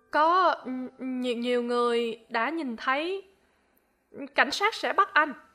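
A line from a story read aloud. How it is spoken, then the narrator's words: Stammering. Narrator (Vietnamese): Tôi lắp bắp nói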